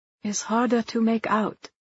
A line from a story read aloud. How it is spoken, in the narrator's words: she falters